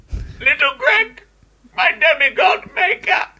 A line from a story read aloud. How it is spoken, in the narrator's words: Zeus laughed for so long and so hard